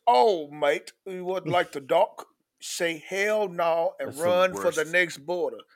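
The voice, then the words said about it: Bad put-on Scottish/Irish/Australian accent. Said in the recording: “a Scottish, Ireland, Australian type of accent ... That's the most racist fucking accent ... that was really bad, but I appreciate the effort”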